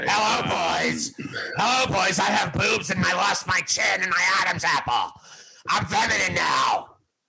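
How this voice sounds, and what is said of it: Imitates another person's voice. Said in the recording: “my imitation of uh, Chyna”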